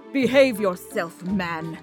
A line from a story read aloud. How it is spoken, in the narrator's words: He spat at Sir Hawthorne